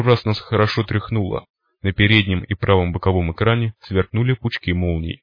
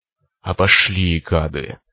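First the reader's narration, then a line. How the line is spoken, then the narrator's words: Hissed. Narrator (Russian): прошипел циклоп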